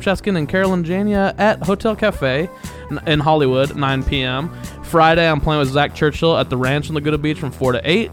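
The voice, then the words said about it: Silly announcer voice. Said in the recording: “this is very silly announcer voice I just slipped into on accident when I'm just reading.”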